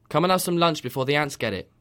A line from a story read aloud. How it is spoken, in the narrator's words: called out